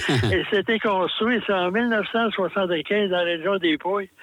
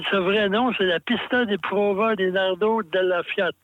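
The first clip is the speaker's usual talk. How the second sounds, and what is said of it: Put-on Italian accent. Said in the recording (French): “de mon accent italien”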